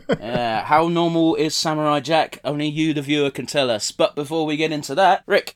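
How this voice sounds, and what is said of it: Congested, stuffy-nosed voice. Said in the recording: “I'm a bit bunged up at the moment ... if I sound a bit weird ... a few more coughs and sniffs than normal”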